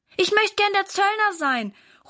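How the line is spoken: Calling out. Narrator (German): ruft Valentin

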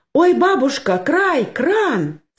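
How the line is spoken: Sudden cry. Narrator (Russian): скрикнула вдруг Анюта

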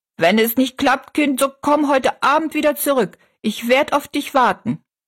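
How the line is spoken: Calling after someone. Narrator (German): rief sie noch hinterher

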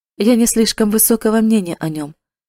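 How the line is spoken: Offhand tone. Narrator (Russian): сказал он небрежным тоном

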